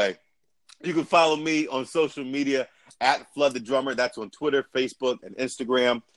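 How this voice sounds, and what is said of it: Usual voice. Nothing is said of it.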